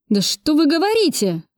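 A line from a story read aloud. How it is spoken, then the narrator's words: Exclaiming. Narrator (Russian): воскликнул Кравцов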